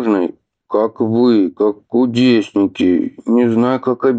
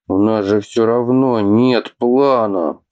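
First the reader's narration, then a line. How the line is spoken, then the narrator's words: Angry growl. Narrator (Russian): прорычал Атхи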